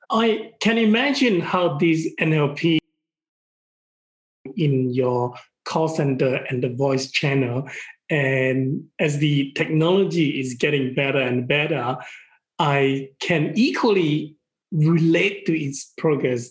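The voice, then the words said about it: Non-American, non-Australian English accent. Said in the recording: “you can probably tell already, and a lot of people can tell already, that I obviously would have different accent than American or the Australian simply because of my upbringing ... they could never really recognize my accent”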